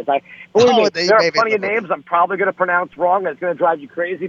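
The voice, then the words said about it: New York accent. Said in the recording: “my accent ... the New York twang”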